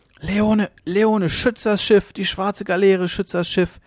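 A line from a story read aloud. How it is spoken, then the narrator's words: Feverish dying shriek. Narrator (German): kreischte der Sterbende im Fiebertraum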